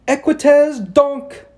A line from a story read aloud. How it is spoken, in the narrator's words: cried